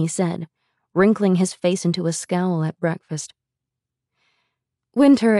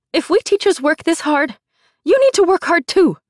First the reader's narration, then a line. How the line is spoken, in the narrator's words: Song barked, her voice sharp and high